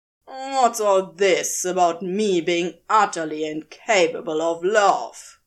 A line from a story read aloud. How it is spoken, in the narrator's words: Crowley spat out venomously